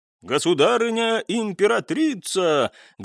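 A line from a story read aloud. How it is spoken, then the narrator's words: Guard bellowing loudly. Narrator (Russian): громко проорал один из гвардейцев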